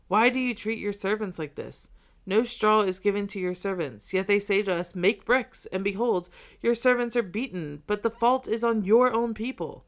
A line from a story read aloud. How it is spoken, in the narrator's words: the foremen of the people of Israel cried to Pharaoh